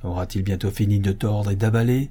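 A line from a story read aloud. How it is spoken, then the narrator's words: Grumbled. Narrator (French): grommela le musicien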